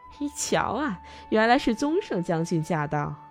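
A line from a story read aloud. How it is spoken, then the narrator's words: Suppressed laughter. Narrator (Chinese): 人们几乎笑出声来，说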